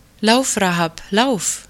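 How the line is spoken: Called out. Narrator (German): rief Salmon

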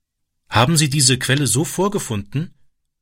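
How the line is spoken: Plain question. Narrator (German): fragte er

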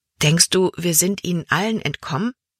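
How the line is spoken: Plain. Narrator (German): fragte Libby

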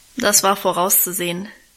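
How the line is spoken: Dry remark. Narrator (German): meinte sie trocken

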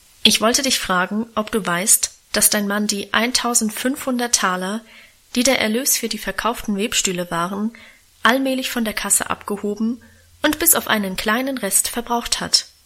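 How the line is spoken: Plain. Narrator (German): sagte Großvater

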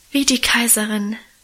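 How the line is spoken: Soulful sigh. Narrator (German): seufzte Minchen gefühlvoll

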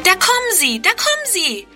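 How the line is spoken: Calling out. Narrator (German): ruft Friedrun

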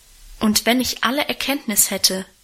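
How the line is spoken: Plain. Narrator (German): sagt der Apostel

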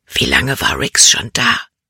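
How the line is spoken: Whispered. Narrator (German): flüsterte sie

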